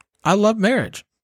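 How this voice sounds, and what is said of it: Louder, emphatic voice. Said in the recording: “Say it louder.”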